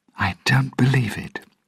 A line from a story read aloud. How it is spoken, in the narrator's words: she said quietly